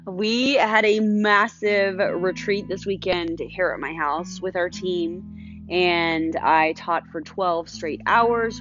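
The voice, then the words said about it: Strained, tired voice. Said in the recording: “what the heck is up with her voice today? ... that is why my voice sounds like the way that it does ... my voice is stressed”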